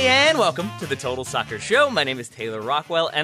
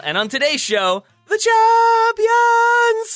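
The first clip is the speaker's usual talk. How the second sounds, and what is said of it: Sudden high falsetto voice. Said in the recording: “I went falsetto, baby.”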